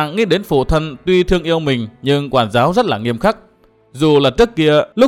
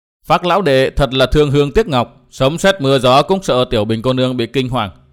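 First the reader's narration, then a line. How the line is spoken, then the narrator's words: Loud laughing speech. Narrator (Vietnamese): có người cười to nói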